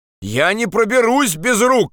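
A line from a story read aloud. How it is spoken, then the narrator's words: Shout. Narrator (Russian): крикнул он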